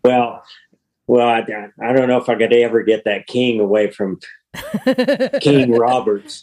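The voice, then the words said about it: Texan drawl, slow speech. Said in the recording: “that's the Texan drawl there”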